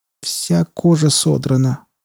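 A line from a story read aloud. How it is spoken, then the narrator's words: Moaning. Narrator (Russian): простонала Филдинг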